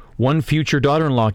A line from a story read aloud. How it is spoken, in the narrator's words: Kaladin says